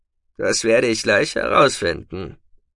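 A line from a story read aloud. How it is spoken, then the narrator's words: Growling. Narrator (German): knurrte Tekina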